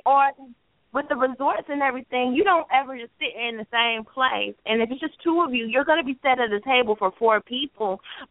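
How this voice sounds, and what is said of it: North Carolina accent. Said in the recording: “people always ask me where I'm from because of my accent ... I'm from North Carolina”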